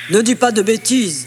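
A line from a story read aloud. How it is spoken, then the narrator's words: Sneering laugh. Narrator (French): ricana Paf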